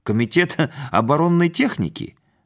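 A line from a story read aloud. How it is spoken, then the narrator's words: Bearded man giggling. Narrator (Russian): Бородатый хихикнул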